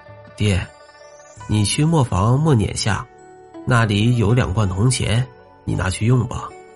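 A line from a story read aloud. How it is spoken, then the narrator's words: Calm, indifferent. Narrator (Chinese): 黄师生淡淡的说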